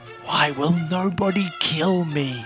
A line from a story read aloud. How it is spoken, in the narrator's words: wheezed Happy the little mouse as Nurse Walrus blew halitosis-laced air back into his collapsing lungs